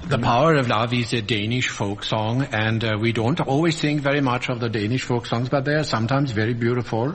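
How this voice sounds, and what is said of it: Put-on Danish accent. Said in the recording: “Why are you talking like that? ... this is what I imagine is a sort of Danish accent.”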